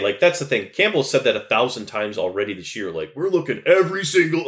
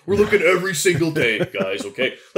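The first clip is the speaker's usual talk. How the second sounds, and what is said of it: Imitates another person's voice. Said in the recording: “doing my Dan Campbell voice”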